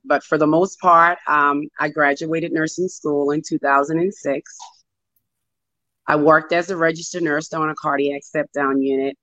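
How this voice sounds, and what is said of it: Hoarse voice. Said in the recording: “as you can hear my voice, I'm hoarse ... I started losing my voice”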